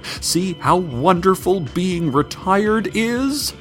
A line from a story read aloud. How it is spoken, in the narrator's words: she shouted behind her as she sprinted away, smoke-fueled tears streaming